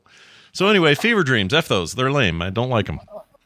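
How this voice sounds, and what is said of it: Rough, worn-out voice. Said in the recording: “my voice is garbage, or it's starting to be”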